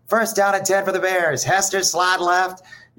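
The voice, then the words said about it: Bad Jeff Joniak radio announcer impression. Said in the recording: “I used to do a bad Jeff Joniak impression”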